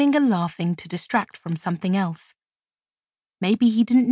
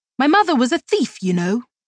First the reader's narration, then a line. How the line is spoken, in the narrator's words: Fairwind blurted out then, unprompted